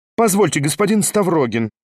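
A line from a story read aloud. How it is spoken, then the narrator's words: Sharp hostess. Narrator (Russian): резко обратилась к нему хозяйка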